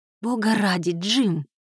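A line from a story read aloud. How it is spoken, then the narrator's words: Whispered. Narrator (Russian): прошептала Кайра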